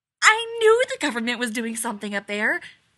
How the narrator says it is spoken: Abby exclaims

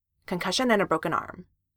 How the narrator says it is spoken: Sam said firmly

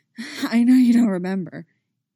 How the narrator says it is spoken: he's panting, just a little bit

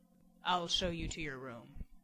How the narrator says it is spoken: Lowly, almost purring in his ear, the beast rumbled

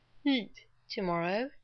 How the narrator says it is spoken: he broke off to yawn

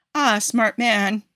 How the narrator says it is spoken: says with a laugh

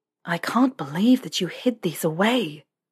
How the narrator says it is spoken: Harry breathed

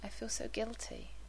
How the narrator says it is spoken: he said quietly

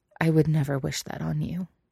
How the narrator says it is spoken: Elliot says quietly

